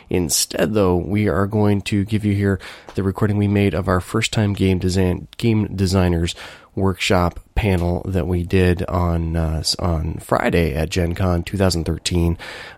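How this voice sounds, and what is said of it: Sick-sounding voice. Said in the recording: “if you couldn't already tell from my voice, I got hit pretty good with the con crud from Gen Con”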